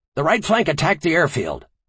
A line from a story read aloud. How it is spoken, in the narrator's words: Colonel Matsumoto shouted